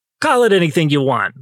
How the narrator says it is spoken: Mom snapped

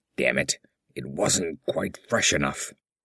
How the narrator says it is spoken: West muttered through his bandages

